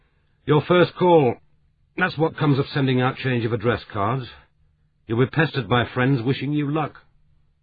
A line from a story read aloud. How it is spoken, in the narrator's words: He called out